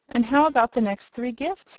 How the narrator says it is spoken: inquired the boy anxiously

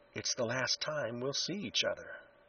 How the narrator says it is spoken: whispered

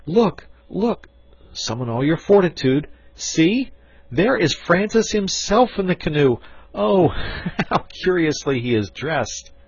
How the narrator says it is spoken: cried they at once

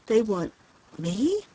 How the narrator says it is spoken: she gasped brokenly, incredulously

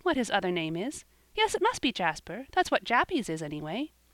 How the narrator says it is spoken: she added with a little laugh

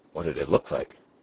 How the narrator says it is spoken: Henry asked

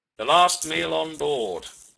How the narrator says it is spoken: he explained solemnly

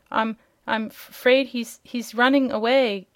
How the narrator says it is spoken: gasped Dorothy

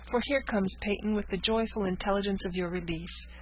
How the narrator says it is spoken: cried Frances

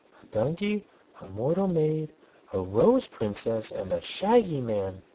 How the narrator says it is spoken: she exclaimed

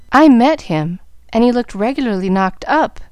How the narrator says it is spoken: answered Gus, in a sober tone

